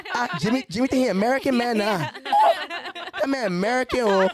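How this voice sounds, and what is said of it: Mocking imitation of relatives' accent. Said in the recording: “Here I'm making fun of their accent. I'm like, y'all got accents.”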